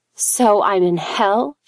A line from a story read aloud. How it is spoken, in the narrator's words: she spat back